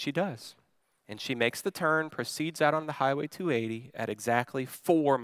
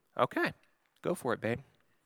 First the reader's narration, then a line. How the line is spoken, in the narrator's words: I say calmly